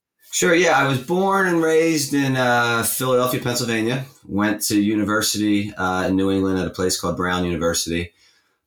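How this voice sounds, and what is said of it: American accent. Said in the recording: “that isn't a Mancunian accent there or a British one, obviously an American accent”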